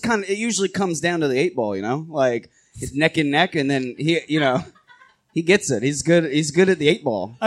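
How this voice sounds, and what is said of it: Put-on Asgardian accent, slightly drifting. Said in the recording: “our Asgardian accent is kind of drifting. ... It's still good. It's okay.”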